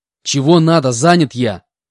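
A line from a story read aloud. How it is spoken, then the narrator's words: Angry shout. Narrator (Russian): Злобно выкрикнул я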